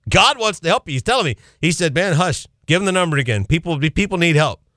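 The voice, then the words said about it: Country accent. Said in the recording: “with my country accent”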